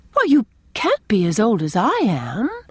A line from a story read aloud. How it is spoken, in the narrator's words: exclaimed Anne